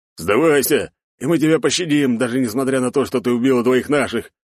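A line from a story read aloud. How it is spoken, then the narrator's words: Bearded man shouting. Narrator (Russian): выкрикнул бородатый тип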